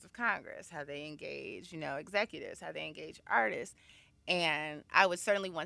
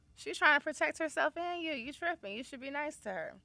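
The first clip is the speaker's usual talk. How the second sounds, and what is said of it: Casual homeboy voice like Bill Bellamy. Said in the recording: “my man impression ... I sound like Bill Bellamy”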